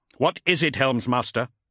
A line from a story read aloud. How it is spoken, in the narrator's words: he snapped